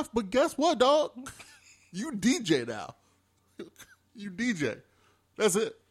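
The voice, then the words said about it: Put-on full Memphis accent. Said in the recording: “you went into full Memphis accent”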